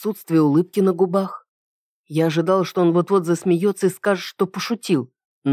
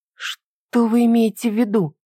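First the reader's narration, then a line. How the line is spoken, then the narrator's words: Trembling voice. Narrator (Russian): дрожащим голосом спросила я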